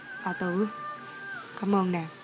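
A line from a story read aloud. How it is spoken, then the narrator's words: Soft, muffled speech. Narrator (Vietnamese): Hắn khẽ nói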